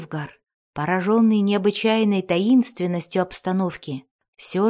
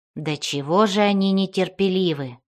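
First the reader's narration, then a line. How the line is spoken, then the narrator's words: Dwarf snorting. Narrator (Russian): хмыкнул дворф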